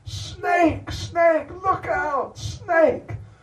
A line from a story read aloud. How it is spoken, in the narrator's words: shouted out